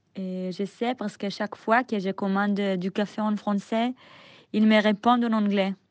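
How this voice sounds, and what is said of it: Heavy Israeli accent in French. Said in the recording (French): “mon accent israélien. Je sais que c'est très lourd.”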